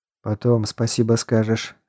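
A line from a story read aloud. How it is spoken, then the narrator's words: Upset grumble. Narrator (Russian): огорченно буркнул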